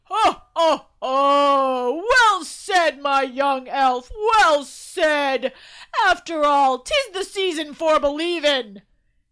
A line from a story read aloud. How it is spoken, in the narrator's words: Santa bellowed